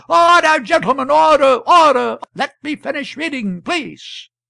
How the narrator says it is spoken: Meantime the chair was hammering with the gavel and shouting

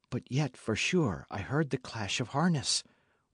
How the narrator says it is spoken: whispered Alicia

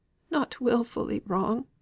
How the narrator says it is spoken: pleaded Mrs

